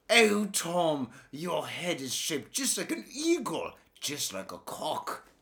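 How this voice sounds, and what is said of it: Bad put-on British accent. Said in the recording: “I have the worst UK accent ever”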